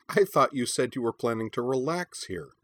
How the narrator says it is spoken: said Corwin's mother Scold with a laugh

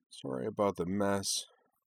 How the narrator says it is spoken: she said in a low, dispirited tone

